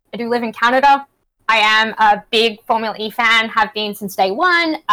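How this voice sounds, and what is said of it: Australian accent. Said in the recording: “as my accent does attest. I am very Australian.”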